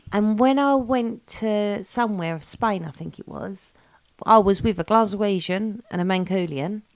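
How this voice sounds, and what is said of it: Essex English accent. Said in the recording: “my stupid Essex accent ... Essex is the most annoying accent in the world”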